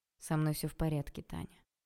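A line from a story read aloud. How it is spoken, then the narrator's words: Calm reply. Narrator (Russian): спокойно ответил Олег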